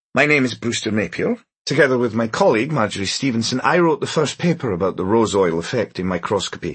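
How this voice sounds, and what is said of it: Scottish accent. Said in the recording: “a sandy-haired man with a Scottish accent.”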